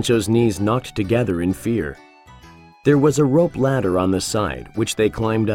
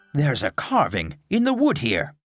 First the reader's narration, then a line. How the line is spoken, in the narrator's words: exclaimed Don Quixote